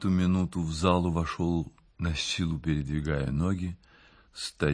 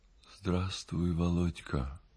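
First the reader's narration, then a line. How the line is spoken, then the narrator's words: Weak voice. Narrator (Russian): сказал он слабым голосом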